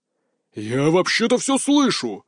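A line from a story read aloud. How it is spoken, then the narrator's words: Father's wounded-bison roar. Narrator (Russian): раненым бизоном взревел отец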